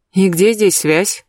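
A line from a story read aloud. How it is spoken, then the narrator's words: Grumbled. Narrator (Russian): буркнула я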